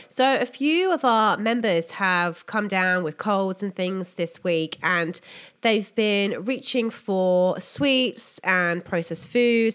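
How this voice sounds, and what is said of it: Sounds unwell, sick voice. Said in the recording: “a little bit unwell myself, as you can probably hear in my voice.”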